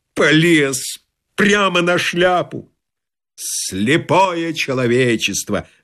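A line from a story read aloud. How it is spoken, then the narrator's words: Loud laughter. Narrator (Russian): захохотал блондин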